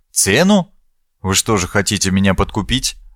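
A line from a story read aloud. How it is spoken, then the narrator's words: Even-toned question. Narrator (Russian): ровным тоном спросил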